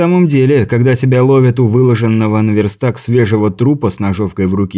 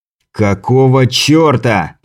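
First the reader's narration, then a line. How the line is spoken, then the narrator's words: Growl. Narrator (Russian): прорычал я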